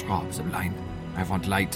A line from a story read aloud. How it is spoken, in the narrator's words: He said to me in a sharp whisper